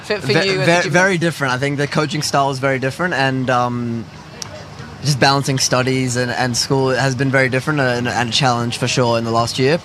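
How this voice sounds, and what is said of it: Strong accent. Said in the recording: “that accent's staying strong, mate”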